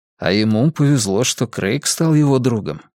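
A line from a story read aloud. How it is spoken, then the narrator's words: Quiet, father. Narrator (Russian): тихо произнес папа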